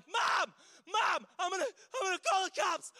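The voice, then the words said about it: Screaming at full volume. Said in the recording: “I'm screaming at the top of my lungs”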